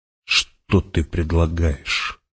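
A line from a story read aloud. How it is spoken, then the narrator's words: Whisper. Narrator (Russian): прошептал герцог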